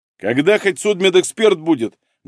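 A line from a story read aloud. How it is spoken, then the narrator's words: Loud bark. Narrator (Russian): гаркнул Малинин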